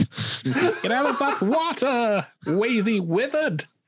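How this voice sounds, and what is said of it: Elmer Fudd cartoon voice. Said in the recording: “that's a different accent completely ... It's Elmer Fudd.”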